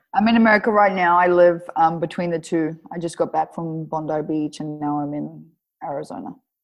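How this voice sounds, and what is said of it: Australian accent with American mix. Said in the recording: “You've got a funky accent between mixed. ... I'm Australian. Like I'm full on Australian. ... It's crazy how quickly this American thing comes into your voice.”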